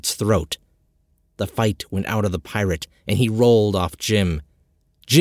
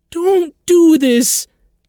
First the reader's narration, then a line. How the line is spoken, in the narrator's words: Jenny pleaded through tears